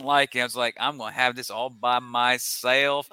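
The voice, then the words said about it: Put-on American country accent. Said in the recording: “I was getting my country accent, getting a little”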